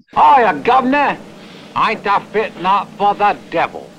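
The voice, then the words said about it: Exaggerated Cockney English accent. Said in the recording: “he's talking in this Dick Van Dyke English accent ... He was that authentic for this Cockney accent”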